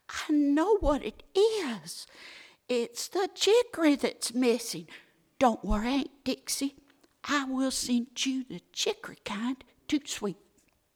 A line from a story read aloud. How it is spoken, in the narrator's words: she cried